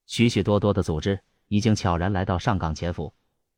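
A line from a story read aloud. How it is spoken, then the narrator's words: Deep grave voice. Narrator (Chinese): 安无涯沉声说道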